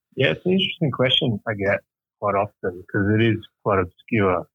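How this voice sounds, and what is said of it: Australian accent. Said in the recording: “your accent ... you're an Aussie”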